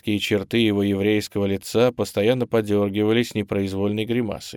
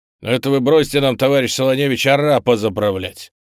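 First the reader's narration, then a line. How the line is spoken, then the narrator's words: Irritated gruff man. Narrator (Russian): Раздраженно бросил другой следователь, низкий, коренастый и мрачный человек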